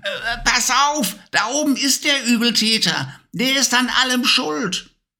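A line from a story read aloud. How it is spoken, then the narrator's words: Calling out. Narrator (German): rief sie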